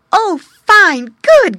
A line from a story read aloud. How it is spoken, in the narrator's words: cried the boy, clapping his hands